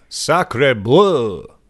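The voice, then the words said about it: Put-on French vampire voice. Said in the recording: “my impression of a French vampire”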